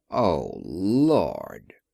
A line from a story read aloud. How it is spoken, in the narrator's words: groaned Sam Hupp, as if in pain